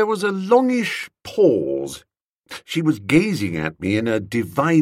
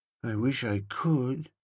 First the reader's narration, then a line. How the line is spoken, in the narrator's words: murmured